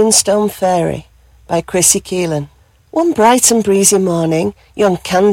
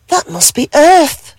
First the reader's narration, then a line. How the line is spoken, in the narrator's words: she gasped with joy